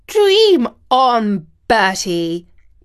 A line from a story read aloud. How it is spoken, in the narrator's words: exclaimed the Queen